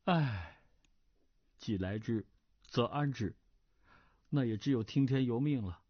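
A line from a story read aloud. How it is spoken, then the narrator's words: Sighing inner thought. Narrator (Chinese): 段誉叹了口长气，心想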